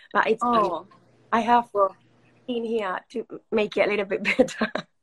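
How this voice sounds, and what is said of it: Sick, strained voice. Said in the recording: “Sorry for my voice. ... I'm positive for COVID right now. So that's why my throat is like that.”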